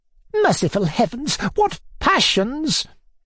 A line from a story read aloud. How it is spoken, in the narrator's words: hissed Miss Perepolitsin